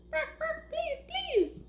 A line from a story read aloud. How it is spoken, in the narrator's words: chirped the chorus of little chicks